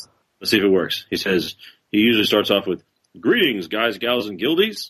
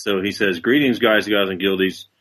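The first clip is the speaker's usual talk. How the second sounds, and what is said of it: Impression of Steve Conger. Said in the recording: “your impression of Steve”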